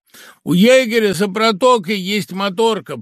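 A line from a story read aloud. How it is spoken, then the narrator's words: Shouting. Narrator (Russian): прокричал Юра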